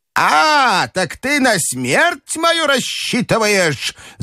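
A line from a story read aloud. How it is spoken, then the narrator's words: Grandmother screaming. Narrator (Russian): завопила бабушка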